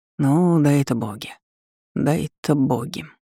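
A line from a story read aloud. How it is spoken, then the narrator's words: Muttering. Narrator (Russian): пробормотал мэр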